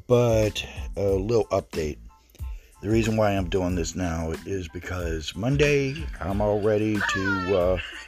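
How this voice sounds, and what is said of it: Sick, sinusy voice. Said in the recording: “my voice is the way it is because I'm under the weather. I thought it was just sinuses, but apparently it's something a little more”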